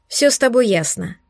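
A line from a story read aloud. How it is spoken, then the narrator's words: Sympathetic sigh. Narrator (Russian): сочувственно вздохнула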